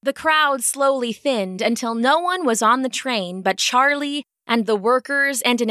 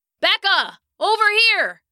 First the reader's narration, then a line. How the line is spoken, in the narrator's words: he shouted